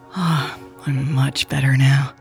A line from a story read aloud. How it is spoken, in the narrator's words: Louise sighed